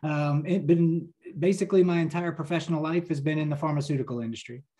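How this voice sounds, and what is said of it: New Jersey accent. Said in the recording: “I'm a lifelong New Jersey resident. If you can't right tell by my accent.”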